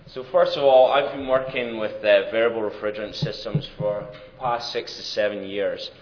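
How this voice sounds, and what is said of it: Scottish accent. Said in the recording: “Might tell by my accent, I'm not from these parts, but born and raised in Scotland”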